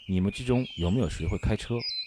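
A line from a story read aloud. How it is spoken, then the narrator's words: Deep grave question. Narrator (Chinese): 岳仲……沉声问道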